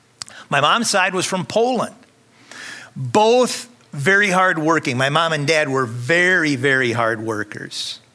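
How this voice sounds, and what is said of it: Northern Minnesota accent. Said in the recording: “I'm from Minnesota, so you can probably hear some of my northern accent.”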